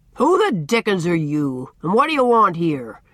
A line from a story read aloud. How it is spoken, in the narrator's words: he demanded, in his great resounding voice, with a fierce scowl